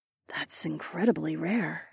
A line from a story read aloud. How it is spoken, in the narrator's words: Lyca murmured